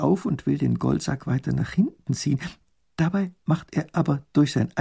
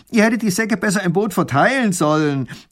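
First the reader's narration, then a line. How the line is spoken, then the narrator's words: Calls out on noticing. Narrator (German): ruft der Räuber, als er es merkt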